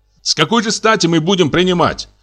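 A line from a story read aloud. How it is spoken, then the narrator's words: Shouting. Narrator (Russian): кричал фон Штенберг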